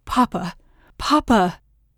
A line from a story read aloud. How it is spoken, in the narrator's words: Gareth cries out